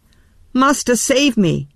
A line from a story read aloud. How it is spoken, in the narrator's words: he cried